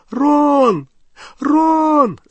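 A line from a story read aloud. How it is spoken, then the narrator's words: Calling, nearly sobbing. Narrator (Russian): звала Гермиона, уже почти рыдая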